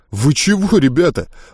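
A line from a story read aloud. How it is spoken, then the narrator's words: Surprised breathless exhale. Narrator (Russian): удивленно выдохнул Джек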